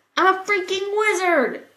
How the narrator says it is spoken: Sam shouted

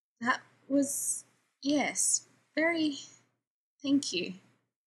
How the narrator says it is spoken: Rodney says in a strange, cracked voice

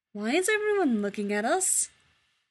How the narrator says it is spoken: Taylor laughs

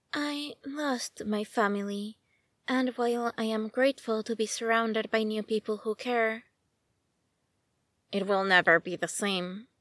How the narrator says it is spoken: whispered Batman

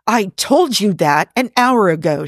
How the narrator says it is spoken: she snaps

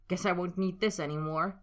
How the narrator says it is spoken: spat, fingers trembling

